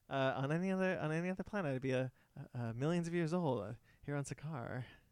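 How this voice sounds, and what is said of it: Good impression of a film character. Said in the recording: “I'm turning into Jeff Goldblum. ... That's actually a pretty good Grandmaster impression”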